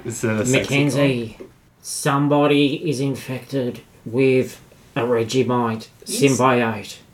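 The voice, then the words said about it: Slow, slightly slurred whisper. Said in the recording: “You sound a bit, a little slower on the whispering... a little bit slurry”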